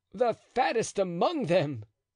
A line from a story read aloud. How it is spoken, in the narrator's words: cried D'Artagnan, unable in spite of the gravity of the occasion to help laughing